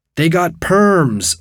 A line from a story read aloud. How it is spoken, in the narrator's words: someone screamed